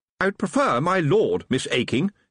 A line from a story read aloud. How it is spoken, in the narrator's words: he said sharply